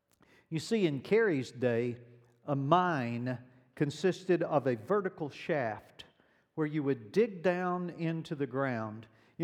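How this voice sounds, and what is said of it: Southern American accent. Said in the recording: “I grew up in the South. You already knew that by the accent”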